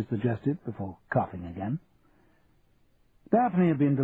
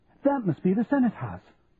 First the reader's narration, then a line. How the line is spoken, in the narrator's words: she exclaimed, as if she'd come across an undiscovered pyramid